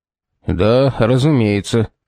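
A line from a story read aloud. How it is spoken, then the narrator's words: Gloomy agreement. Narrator (Russian): согласился Фитцджеймс-старший, мрачно нахмурившись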